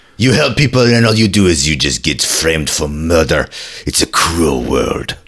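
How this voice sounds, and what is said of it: Ridiculous fake French accent. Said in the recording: “It's a ridiculous accent... It's a very ridiculous French accent.”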